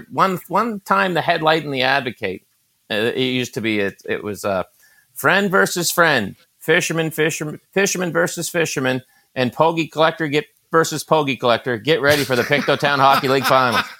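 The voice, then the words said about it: Maritime Canadian accent. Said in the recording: “I love the guys from the Maritimes. ... When you tell those stories, you can hear the accent come out.”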